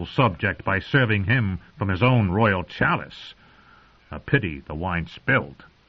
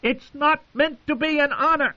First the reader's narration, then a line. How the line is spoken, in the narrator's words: Joffrey screamed